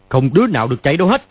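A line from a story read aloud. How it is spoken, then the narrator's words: Sharp shout. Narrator (Vietnamese): Hắn quát lên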